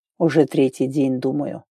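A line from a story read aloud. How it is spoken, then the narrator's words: Quiet reply. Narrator (Russian): тихо ответил конук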